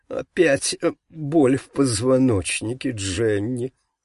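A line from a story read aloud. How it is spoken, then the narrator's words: Whiny complaint, woman pastor. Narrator (Russian): плаксивым тоном пожаловалась пастырша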